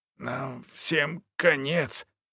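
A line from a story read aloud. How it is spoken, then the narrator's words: Hoarse voice. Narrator (Russian): прозвучал чей-то хриплый голос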